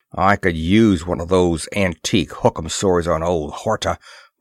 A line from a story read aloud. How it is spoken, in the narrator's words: growled Moore